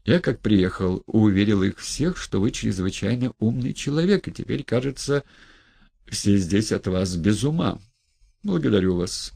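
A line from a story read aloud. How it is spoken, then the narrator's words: Calm reply. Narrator (Russian): спокойно отозвался Петр Степанович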